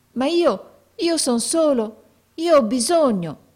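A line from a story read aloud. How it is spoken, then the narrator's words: Pleading exclamation. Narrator (Italian): esclamò con voce di preghiera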